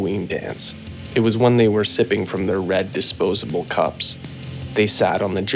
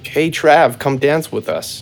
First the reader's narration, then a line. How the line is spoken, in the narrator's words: she shouted through the music